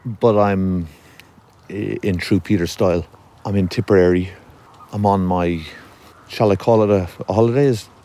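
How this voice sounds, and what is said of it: Irish accent. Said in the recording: “my accent is obviously from the smaller island”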